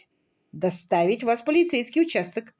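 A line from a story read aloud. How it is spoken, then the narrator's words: Sharp reply. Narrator (Russian): резко ответил Сайкс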